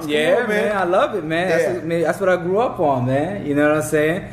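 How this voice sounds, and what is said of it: East Coast Bronx accent. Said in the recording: “You got such an East Coast accent ... you from the Bronx”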